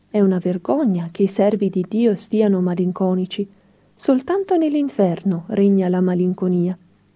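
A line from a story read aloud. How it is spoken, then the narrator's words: Gentle rebuke. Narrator (Italian): lo rimproverava dolcemente, dicendo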